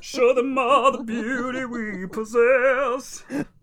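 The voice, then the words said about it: Sung impression of a TV character. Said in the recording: “That was my like Jenna Maroney impression.”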